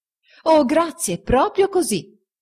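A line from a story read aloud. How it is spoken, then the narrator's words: Exclaimed. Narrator (Italian): esclamò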